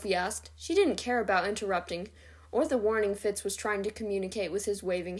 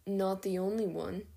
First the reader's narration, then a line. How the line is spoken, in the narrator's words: Quinlan said quietly